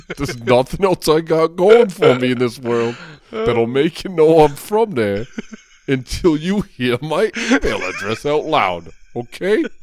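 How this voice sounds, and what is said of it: Strong New York accent. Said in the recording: “my ridiculous accent ... New York”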